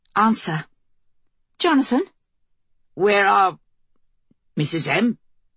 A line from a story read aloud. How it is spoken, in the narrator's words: His voice crackled with static, dropped out